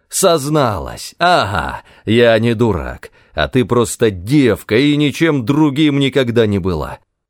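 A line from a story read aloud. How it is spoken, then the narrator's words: Shouting. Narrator (Russian): кричал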